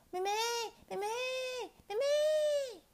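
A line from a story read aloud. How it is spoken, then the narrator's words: Loud calling. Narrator (Chinese): 佳佳大声叫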